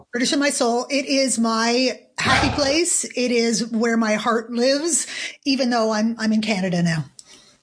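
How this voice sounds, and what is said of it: American accent. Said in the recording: “you've got obviously an American accent”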